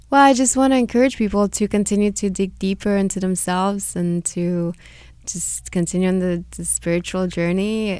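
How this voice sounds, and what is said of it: Slight Hungarian-Romanian accent. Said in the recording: “I hear a little accent ... I'm Hungarian-Romanian.”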